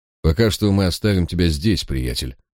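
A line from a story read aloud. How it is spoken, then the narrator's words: Dry, curt. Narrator (Russian): сухо добавил Барак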